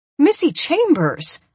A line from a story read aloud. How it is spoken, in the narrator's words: I exclaim